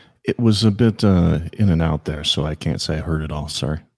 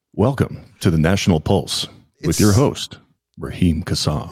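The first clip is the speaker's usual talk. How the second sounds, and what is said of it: Polished radio announcer voice, British. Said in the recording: “you have a better radio voice than I do ... these dulcet British tones, but yours are even better”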